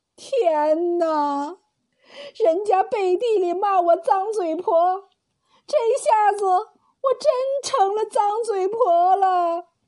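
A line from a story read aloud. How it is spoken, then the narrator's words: Furious, tearless wailing. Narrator (Chinese): 高母气得瘫坐在椅子上，哭丧似的干嚎起来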